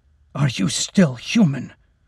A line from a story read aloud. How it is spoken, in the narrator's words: Lacey gasped, shocked by the question